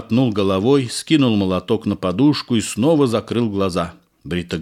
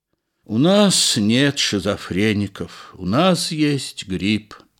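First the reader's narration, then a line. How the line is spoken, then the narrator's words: Tired wife's reply. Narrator (Russian): устало ответила жена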